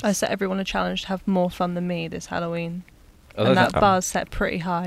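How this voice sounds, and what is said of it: Flat, monotone, sad-sounding voice. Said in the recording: “You sound like a sad Dalek. ... I'm very monotone”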